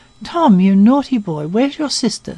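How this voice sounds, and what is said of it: Distressed voice. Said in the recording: “in a distressed voice.”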